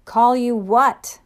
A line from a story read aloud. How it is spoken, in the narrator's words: yelled out